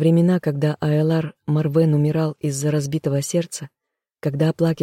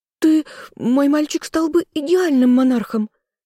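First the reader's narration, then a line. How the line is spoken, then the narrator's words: Shriek. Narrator (Russian): взвизгнула Маргретта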